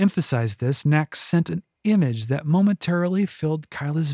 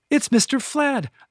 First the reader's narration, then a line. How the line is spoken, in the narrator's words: young kitchen maid cried